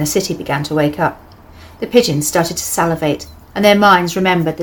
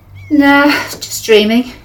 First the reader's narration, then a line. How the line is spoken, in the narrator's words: she yawned